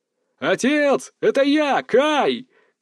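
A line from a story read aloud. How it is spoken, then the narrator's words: Full-voiced shout. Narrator (Russian): крикнул я во весь голос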